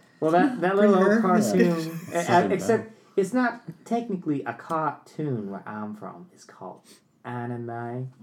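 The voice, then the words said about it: Female Southern belle accent. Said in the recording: “your southern accent was good with that one. Your southern bell. ... bring her back out ... female southern accent”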